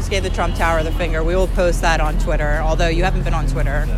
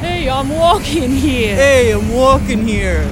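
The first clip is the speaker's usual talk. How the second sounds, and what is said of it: Unimpressive put-on New York accent. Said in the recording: “No one's impressed by my New York City accent. ... It's not impressive.”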